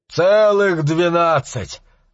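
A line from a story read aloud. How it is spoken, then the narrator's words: Laughing man. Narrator (Russian): засмеялся мужчина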